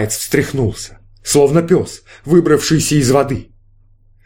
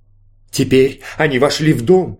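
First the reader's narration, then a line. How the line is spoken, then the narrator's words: Plain. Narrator (Russian): сказал Малаец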